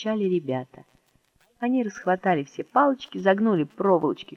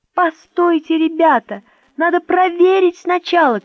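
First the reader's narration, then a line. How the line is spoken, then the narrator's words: Shouting. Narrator (Russian): кричал Мишка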